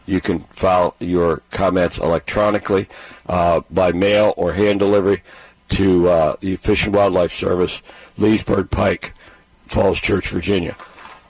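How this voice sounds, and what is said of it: Hoarse, failing voice. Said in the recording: “I'm losing my voice here for a second, so I'm going to clear my throat.”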